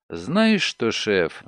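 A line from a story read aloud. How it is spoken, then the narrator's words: Sighing. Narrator (Russian): вздохнула Делла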